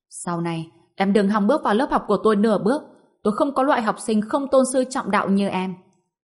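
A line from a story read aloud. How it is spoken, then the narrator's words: Furious loud scolding. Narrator (Vietnamese): giáo viên tiếng Anh giận đến mức suýt thì ngã ngửa ra sau, không ngừng cao giọng mắng chửi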